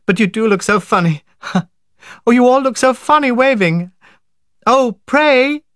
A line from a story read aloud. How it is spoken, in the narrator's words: laughing helplessly, she